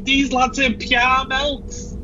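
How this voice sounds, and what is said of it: Shouted Scouse accent. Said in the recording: “in a Scouse accent scream”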